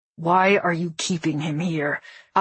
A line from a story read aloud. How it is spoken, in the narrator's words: Akkos said through gritted teeth